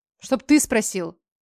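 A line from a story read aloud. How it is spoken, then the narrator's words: Angry worked-up bark. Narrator (Russian): Рявкнула, ибо за целый час одиночного заключения в машине успела изрядно себя накрутить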